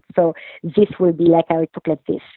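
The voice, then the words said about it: French accent with a lisp. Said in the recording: “can you do Monique with a lisp and a French accent?”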